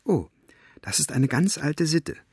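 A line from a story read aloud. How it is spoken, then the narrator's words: Whispered. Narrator (German): flüsterte Elinor ihr zu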